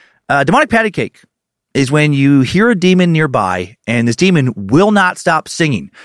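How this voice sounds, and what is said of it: Usual voice. Nothing is said of it.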